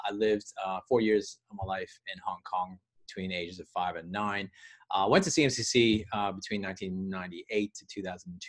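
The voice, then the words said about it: Canadian accent. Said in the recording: “you can hear my accent is, well, most actually, the accent kind of throws me off. I'm Canadian. ... I'm surprised it's not more Aussie by now.”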